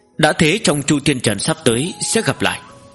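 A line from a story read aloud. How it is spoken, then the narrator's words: Cold, grave. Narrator (Vietnamese): vẻ mặt của Nguyên Thủy Thiên Tôn càng thêm thâm trầm, lạnh lùng nói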